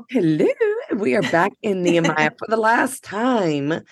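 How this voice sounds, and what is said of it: Scratchy voice. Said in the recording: “my voice sounds a little scratchy today. I need to clear it maybe.”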